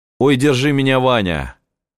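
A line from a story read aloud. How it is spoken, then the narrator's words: Shouted. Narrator (Russian): Потом крикнул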